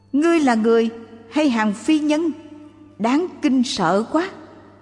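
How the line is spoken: Panicked cry. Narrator (Vietnamese): Ông hoảng hốt la lên rằng

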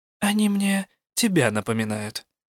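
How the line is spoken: Quiet. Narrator (Russian): тихо сказала я

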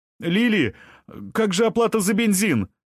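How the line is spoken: Shout. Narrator (Russian): крикнула кассирша

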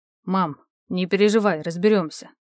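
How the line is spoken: Gloomy. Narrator (Russian): мрачно сказал сын

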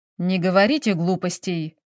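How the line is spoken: Angry reply. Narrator (Russian): сердито ответил дворецкий

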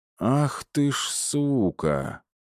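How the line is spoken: Breathless exhale after running. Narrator (Russian): выдохнул я, когда добежал

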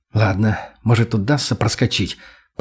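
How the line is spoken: Whisper. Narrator (Russian): прошептал я

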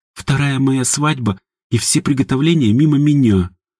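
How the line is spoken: Sobbing. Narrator (Russian): всхлипнула ягушка

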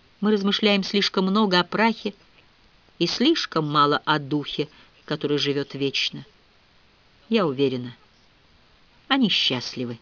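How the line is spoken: Short sigh. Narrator (Russian): Кузина Моника с коротким вздохом сказала

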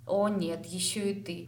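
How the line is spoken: Groaning. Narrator (Russian): простонала Лейна

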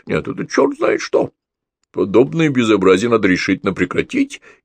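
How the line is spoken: Irritated undertone. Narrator (Russian): Василий Петрович раздраженно фыркал, он один раз даже сказал вполголоса

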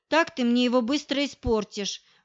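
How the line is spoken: Mock grumbling. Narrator (Russian): фальшиво ворчала я

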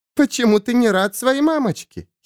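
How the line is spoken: Giggling. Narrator (Russian): хихикала Кимико

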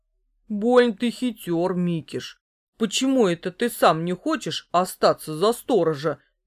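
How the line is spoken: Displeased grumble. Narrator (Russian): недовольно проворчал Бобиш

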